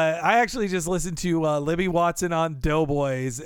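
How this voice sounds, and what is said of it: Usual voice. Nothing is said of it.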